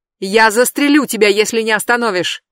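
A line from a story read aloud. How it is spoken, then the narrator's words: Shouting. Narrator (Russian): прокричал он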